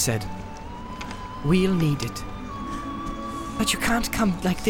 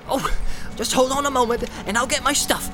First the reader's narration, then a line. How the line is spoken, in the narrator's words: cried Sam eagerly